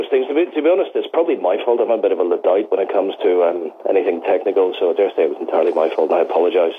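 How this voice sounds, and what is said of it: Speaks with a noticeable accent. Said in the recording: “Listening to your accent is worth everything.”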